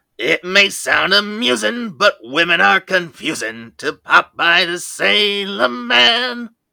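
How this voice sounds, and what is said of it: Raspy Popeye impression. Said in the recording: “not a bad imitation ... That voice is like a buzzsaw in your throat”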